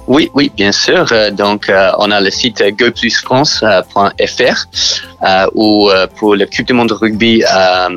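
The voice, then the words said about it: Strong English accent in French. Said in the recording (French): “vous avez un fort accent anglais”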